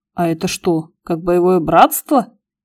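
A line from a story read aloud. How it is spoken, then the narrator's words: Incredulous chuckle. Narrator (Russian): Гусев недоверчиво хохотнул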